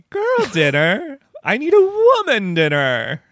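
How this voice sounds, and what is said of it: Bad impression of Samantha. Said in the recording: “worst Samantha impersonation.”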